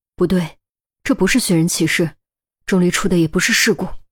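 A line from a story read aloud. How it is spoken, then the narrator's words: Grave, firm tone. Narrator (Chinese): 安琪儿也站了起来，突然沉下脸，用笃定的语气说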